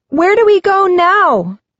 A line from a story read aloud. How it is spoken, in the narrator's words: Marina asks, raising her voice to be heard above the noise